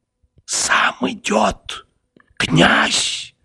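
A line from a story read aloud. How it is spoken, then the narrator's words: Rapid whisper. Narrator (Russian): сказала она ускоренным шепотом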